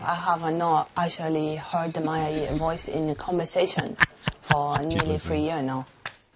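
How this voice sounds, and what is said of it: Chinese-sounding foreign accent. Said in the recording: “a voice she didn't recognize. ... Of a Chinaman. ... foreign accent syndrome”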